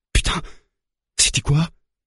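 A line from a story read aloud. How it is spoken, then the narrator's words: Murmured. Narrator (French): murmure Ali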